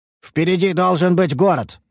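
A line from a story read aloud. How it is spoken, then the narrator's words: Shout. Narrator (Russian): выкрикнул я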